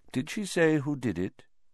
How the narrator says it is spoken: said Dumbledore quietly

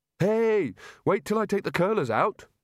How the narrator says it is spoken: Rincewind shouted after it

